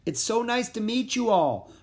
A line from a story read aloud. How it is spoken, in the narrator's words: I shouted up